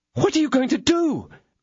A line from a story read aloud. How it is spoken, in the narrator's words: cried Madame Bonancieux